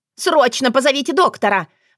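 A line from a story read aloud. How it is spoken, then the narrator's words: Shriek right at ear. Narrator (Russian): Завизжала прямо у уха Вероника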